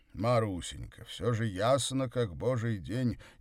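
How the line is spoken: Slightly irritated exclamation. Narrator (Russian): Немного раздраженно воскликнул Горький

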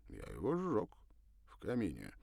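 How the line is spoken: Calm, certain. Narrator (Russian): сказал спокойно, так будто ничуть не сомневался в правильности решения

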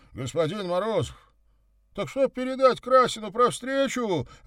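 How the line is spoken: Confused shout from behind. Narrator (Russian): растерянно прокричал вслед гость

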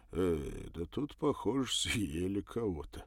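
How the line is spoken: Muttered. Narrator (Russian): пробормотал

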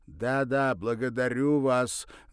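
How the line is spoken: Loud. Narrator (Russian): громко сказал Соловьев

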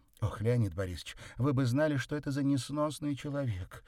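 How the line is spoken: Exclaimed. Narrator (Russian): воскликнула Андреева

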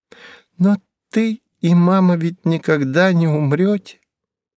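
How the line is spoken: Thin, matter-of-fact child's voice. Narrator (Russian): тоненьким голоском сообщила то, что ей было совершенно очевидно

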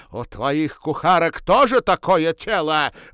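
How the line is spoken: Shouted with hatred. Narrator (Russian): выкрикнула с ненавистью

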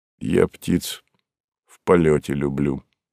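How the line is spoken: Quiet. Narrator (Russian): негромко сказал Савва

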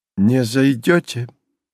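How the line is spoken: Tired, muffled voice. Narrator (Russian): голос Ивана Фомича был устало глух

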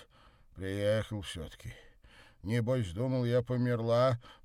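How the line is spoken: Grumbling. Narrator (Russian): проворчала-то

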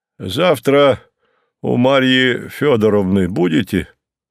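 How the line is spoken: Deep bass voice. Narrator (Russian): пробасил Горький

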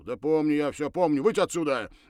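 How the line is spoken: Irritated command. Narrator (Russian): раздраженным голосом приказал

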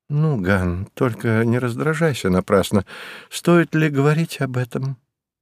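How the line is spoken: Soft soothing voice. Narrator (Russian): Мягким голосом постаралась успокоить его Кете

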